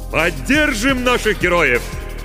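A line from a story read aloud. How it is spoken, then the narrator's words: Shout from above. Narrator (Russian): крикнул над ее головой невидимый Костя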